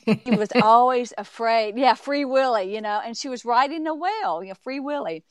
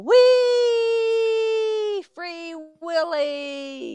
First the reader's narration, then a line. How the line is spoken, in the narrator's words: they would yell